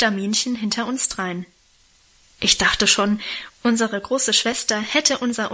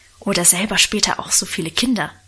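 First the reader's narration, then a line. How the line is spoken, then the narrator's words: Whispered. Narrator (German): flüsterte Lenchen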